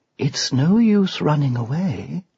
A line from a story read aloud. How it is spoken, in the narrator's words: whispered the witch